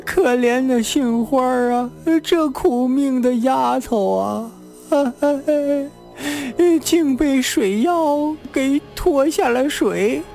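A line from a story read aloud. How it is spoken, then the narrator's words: Wailing, sobbing. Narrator (Chinese): 这个班头名叫庆云 嚎啕便哭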